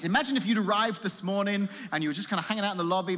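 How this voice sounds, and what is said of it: English accent. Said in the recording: “This isn't a Washington accent. ... it sounds like you're from England ... I am from England. Not Australia, which is what 85% of the people guess”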